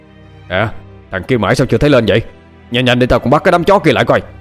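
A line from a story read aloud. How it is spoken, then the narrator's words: Shouting. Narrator (Vietnamese): Bình ... quát lên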